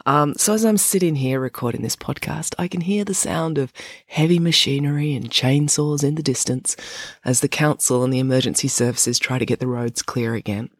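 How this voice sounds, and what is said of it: Off, unwell-sounding voice. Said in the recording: “my voice is pretty off. I'm a bit sick... why I sound funny”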